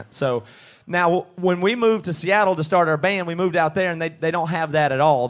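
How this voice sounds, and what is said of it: Southern US accent. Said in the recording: “we're all from the South in the southeastern United States. So, people say we have a Southern accent.”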